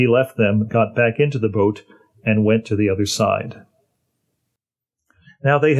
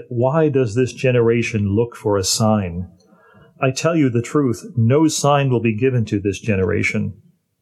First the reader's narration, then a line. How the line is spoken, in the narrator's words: Sighing deeply in his spirit, he said